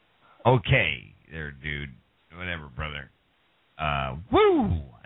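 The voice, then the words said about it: Nature Boy wrestler impression. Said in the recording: “Nature Boy impression”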